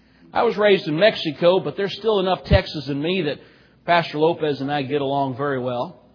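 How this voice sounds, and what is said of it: Texas accent. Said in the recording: “Some of you may be able to tell from my accent that my parents are both from Texas”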